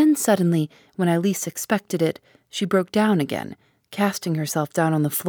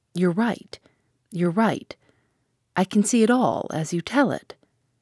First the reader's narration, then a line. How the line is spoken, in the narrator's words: in a choked voice she said